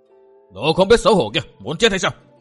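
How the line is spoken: Terrified loud scream. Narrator (Vietnamese): Gã nọ kinh hoàng thét lớn

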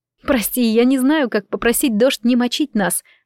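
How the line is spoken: Laughing. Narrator (Russian): засмеялась

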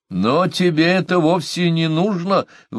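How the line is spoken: Exclaimed. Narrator (Russian): воскликнула Омата

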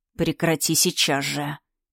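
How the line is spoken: Hissed into ear. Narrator (Russian): прошипела Ас мне на ухо

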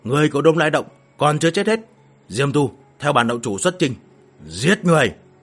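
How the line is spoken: Roared. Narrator (Vietnamese): gầm lên

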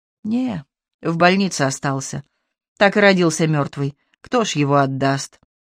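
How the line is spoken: Calm. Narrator (Russian): Тетя Лиля говорила спокойно

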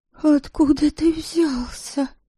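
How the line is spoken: Disbelieving mutter. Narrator (Russian): Пробормотала она, все еще не веря, что это не сон

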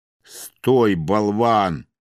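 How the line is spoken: Thundering from above. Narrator (Russian): прогремело откуда-то сверху

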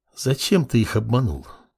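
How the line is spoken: Cold whispered question. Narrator (Russian): Поинтересовалась снежный шепот

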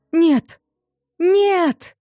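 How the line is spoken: Heart-rending scream. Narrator (Russian): душераздирающий визг

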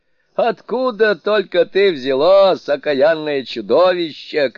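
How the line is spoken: Shouting. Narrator (Russian): кричал он

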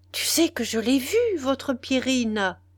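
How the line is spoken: Girl exclaiming. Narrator (French): s'écriait la jeune fille

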